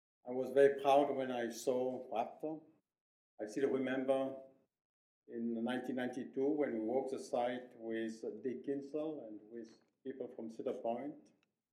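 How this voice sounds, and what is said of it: Non-native English accent. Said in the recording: “I want also to apologize for my English. It's not very good, and for my accent.”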